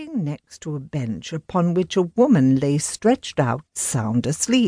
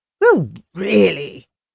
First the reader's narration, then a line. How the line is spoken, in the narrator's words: exclaimed